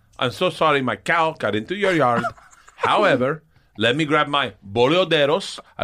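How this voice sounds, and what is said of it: Put-on Argentine accent. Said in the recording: “name a country, I'll do an accent ... Argentina”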